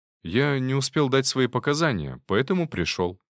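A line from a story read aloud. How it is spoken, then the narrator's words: Calm. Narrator (Russian): спокойно ответил я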